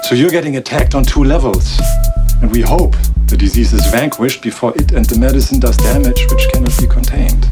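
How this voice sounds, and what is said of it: Very thick accent. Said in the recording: “Your accent's very thick. ... You ever notice your accent makes things sound worse than they actually are?”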